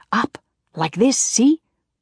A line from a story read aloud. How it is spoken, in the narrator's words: finally whispering